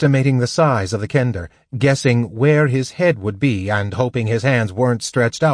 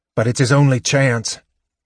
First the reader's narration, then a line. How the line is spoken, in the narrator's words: he muttered to Flint